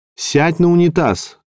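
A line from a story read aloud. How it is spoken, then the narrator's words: Shout from corridor. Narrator (Russian): крикнул из коридора Дамилоло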